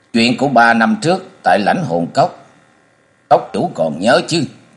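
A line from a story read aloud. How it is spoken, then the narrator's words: Stern reply. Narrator (Vietnamese): Tống Kim Điều nghiêm nghị đáp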